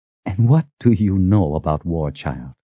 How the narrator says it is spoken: She whispered

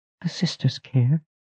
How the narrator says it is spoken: Pasha said in a small voice

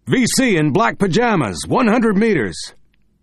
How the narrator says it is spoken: someone behind him shout

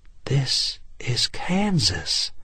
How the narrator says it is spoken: she said, her voice an awed whisper

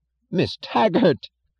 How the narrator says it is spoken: yelled Chick Morrison

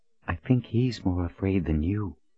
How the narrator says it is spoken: Colin whispered up to him

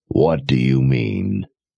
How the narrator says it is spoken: Jigang asked in a gravelly growl

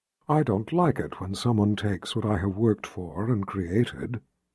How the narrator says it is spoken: Shota said to Richard in an intimate voice

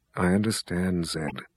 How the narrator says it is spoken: the mother confessor murmured

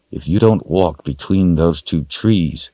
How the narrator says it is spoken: Richard said through gritted teeth

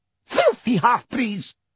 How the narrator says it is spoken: she screamed

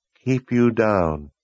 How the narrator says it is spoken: Verna repeated in a dead tone

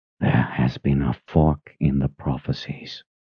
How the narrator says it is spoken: he whispered

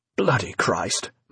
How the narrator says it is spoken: muttered Finch

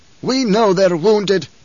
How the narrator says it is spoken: Howitt snapped

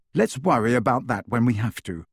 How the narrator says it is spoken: said Harry

